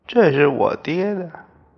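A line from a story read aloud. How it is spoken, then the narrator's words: Crying. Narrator (Chinese): 哭了，他说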